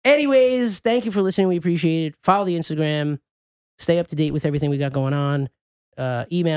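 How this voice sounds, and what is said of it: Usual voice. Nothing is said of it.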